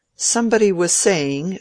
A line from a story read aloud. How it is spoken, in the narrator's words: said the rector laughingly